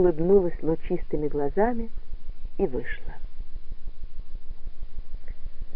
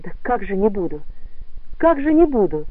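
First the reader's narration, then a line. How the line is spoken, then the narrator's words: Exclaiming twice. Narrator (Russian): воскликнул он дважды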